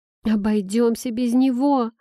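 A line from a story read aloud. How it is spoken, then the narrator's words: Moaned in disbelief. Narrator (Russian): простонала я, не веря обезумевшему Фларда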